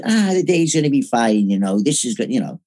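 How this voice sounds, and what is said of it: Put-on Irish accent. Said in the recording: “he's Irish. I'm not going to do an Irish accent.”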